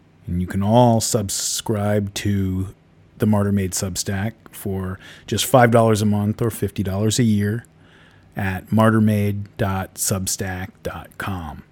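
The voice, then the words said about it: Froggy voice from a cold. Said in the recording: “I've got a little bit of a cold ... my voice is a little froggy.”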